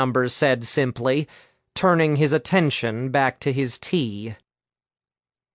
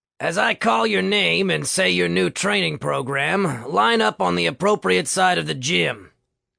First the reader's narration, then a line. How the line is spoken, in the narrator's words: Coach George bellowed